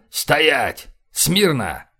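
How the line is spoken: Barked command. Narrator (Russian): Карпентер рявкнул

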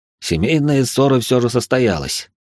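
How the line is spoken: Snort. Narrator (Russian): хмыкнул

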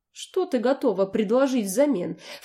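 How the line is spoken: Ingratiating, pleased. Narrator (Russian): вкрадчиво и как-то очень довольно уточнил он

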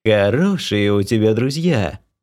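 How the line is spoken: Ringing laugh. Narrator (Russian): звонко засмеялась богиня

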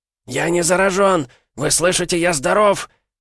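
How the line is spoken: Hoarse shout. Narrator (Russian): прокричал хриплым голосом

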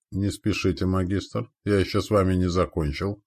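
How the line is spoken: Calm. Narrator (Russian): спокойно произнес я

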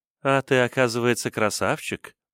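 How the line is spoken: Purring. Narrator (Russian): промурлыкала Салем

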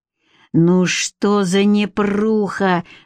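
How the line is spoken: Groaning. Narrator (Russian): застонал Маркел

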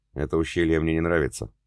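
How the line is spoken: Plain. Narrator (Russian): ответил кормчий

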